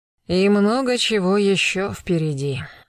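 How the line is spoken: Grim chuckle. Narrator (Russian): мрачно усмехнулся Гектор

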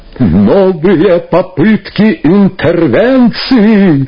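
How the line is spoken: Loudspeaker laughing and wailing. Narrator (Russian): хохотал и плакал, как шакал рупор

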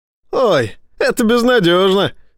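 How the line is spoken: Laughing. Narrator (Russian): рассмеялся Эссекс

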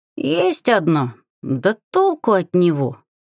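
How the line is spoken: Grumbling grimoire. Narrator (Russian): заворчал гримуар

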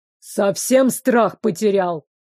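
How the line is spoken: Growl. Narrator (Russian): рыкнул

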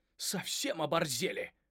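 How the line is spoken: Exclaiming. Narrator (Russian): воскликнул Ральф

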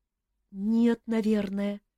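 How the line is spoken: Uncertain reply. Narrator (Russian): неуверенно ответила она

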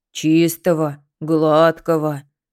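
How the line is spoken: Low booming voice. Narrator (Russian): прогудел за ней Тихон

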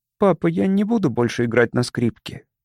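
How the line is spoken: Quiet. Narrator (Russian): она тихо сказала

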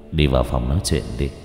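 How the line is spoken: Smiling. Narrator (Vietnamese): Hưng mỉm cười

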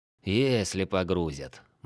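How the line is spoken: Gloomy correction. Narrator (Russian): мрачно поправил О'Нил

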